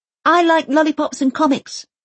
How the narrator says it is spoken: Elsa yells over the din of the engine

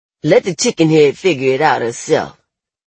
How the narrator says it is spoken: someone else snaps

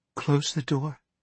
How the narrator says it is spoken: Amanda Dumfries said in a trembling voice

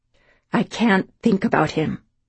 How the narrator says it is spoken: she said more firmly

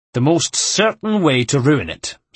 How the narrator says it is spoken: snapped Antonio, offended

